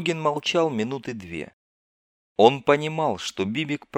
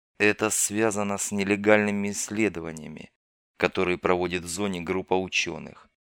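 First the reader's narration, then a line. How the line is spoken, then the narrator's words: Quiet. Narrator (Russian): негромко произнес Дорогин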